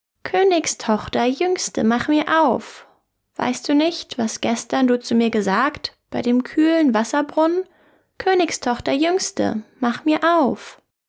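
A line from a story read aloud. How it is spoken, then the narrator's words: Calling out. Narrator (German): rief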